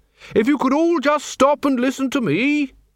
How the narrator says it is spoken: he bellowed

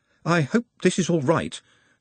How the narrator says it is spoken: said Nut nervously

